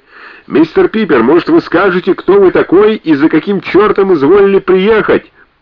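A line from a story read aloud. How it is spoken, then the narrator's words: Shouted over the din. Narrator (Russian): перекрикнул галдеж кто-то из них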